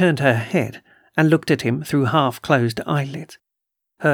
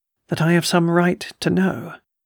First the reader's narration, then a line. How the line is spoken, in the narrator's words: he faltered oddly under her gaze